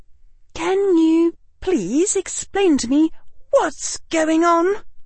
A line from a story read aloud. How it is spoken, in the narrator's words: Hermione said in a weak voice